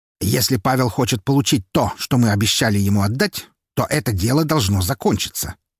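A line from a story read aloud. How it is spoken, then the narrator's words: Sharp. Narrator (Russian): резко произнес Харитонов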